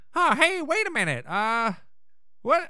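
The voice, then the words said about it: Ron Howard impression. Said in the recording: “I'm doing more of a Ron Howard impression.”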